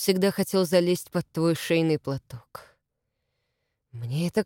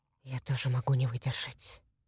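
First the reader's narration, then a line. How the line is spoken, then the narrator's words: Whisper. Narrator (Russian): прошептал он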